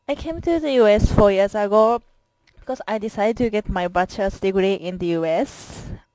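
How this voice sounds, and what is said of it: Japanese accent. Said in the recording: “I'm Japanese and I'm from Japan. English is my second language, so I have a Japanese accent”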